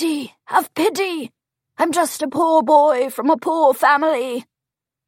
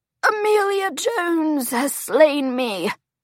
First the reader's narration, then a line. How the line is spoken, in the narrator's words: he moans